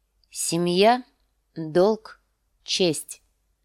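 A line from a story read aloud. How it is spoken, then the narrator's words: Stern voice. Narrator (Russian): строгим голосом повторила она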